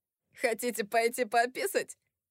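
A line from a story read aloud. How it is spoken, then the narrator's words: Giggling. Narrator (Russian): хихикнул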